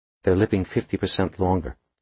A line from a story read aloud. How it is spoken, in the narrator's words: she said flatly